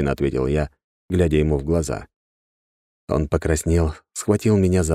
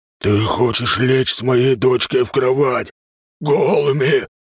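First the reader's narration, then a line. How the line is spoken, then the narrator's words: Loud hiss. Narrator (Russian): громко зашипел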